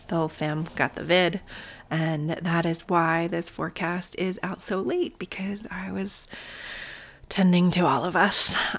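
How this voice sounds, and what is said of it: Voice sounds a little sick. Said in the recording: “You might be able to hear it in my voice. I'm still a little sick.”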